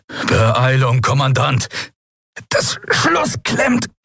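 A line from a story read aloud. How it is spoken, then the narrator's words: Strained, pressed voice. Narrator (German): antwortete Quailor mit gepresster Stimme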